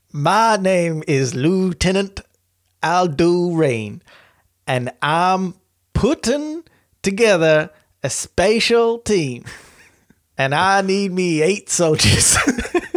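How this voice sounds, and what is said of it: Brad Pitt's Aldo Raine accent. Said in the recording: “a real one that he gave Brad Pitt ... the faux phonetic accented style ... see if this comes out like an accent”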